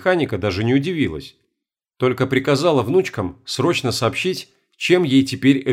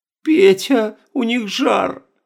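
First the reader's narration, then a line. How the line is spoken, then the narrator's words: Tearful. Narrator (Russian): Сквозь слезы сообщила Зинаида Михайловна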